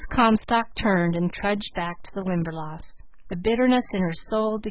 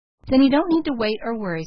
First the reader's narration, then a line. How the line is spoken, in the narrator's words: said the girl cheerfully